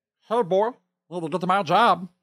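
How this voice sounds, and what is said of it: High-pitched cartoon character voice. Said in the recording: “a little more high pitched clarity that needs to be in there ... Louder, I think. ... I was kind of talking under myself ... I could voice Meatwad ... my number one impression”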